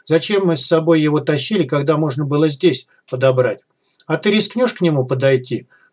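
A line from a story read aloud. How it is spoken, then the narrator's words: Mocking snort. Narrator (Russian): хмыкнул безумный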